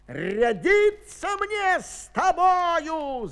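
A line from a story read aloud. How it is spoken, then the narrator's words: Shouted. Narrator (Russian): закричал он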